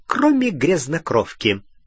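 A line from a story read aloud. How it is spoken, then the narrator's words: Gleeful snort. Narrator (Russian): Сивый радостно хмыкнул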